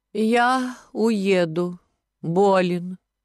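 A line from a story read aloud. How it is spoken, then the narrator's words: Languid voice. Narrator (Russian): сказал Кистунов томным голосом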